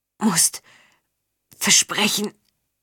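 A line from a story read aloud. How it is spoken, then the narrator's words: Croaking. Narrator (German): krächzte Zinder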